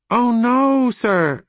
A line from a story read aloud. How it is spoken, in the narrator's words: cried the girl